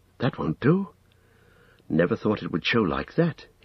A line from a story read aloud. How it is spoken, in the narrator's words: he muttered